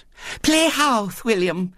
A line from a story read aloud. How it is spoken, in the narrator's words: said Violet Elizabeth eagerly